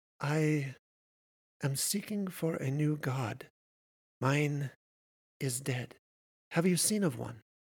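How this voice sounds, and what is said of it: Character voice with lilting accent. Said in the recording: “her accent lilting.”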